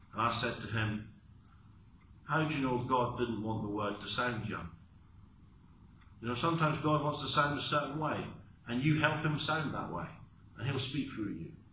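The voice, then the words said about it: English Essex accent. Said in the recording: “I come from a part of England called Essex ... my accent makes me sound a bit like someone who's a bit uneducated and a bit foolish ... why do I sound so Essex?”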